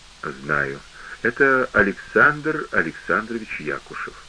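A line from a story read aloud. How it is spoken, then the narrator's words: Quiet, woman. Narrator (Russian): Женщина ответила тихо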